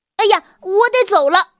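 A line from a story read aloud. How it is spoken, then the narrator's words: Shouting. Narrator (Chinese): 他一边大叫着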